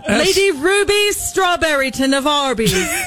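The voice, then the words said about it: Put-on British accent. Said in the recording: “say them out loud in your British accent”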